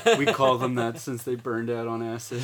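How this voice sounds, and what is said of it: Put-on deeper voice. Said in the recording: “You had to say it in a deeper voice”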